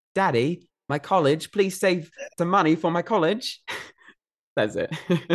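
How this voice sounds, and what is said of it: Put-on British accent. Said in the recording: “It's said in a British accent for that part.”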